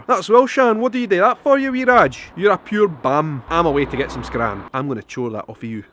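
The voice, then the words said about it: Broad, harsh Edinburgh Scottish accent. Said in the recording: “the typical Edinburgh accent that you will see here in the town is how can I say, a little bit harsher ... I'm going to say exactly how I might have spoke when I was younger growing up here in Edinburgh.”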